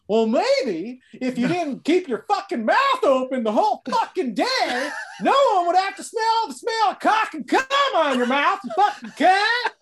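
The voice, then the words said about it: Imitates another person's voice. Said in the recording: “do your Chris Neff ... The best part of that impression is how you nailed the horse tooth part of it”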